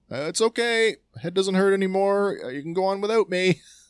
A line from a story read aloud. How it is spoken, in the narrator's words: at the thought of having to cross the deep chasm below, Wrecker shouts